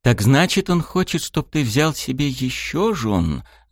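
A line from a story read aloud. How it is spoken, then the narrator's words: Thoughtful quiet whisper. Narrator (Russian): задумчиво тихо прошептала Мияме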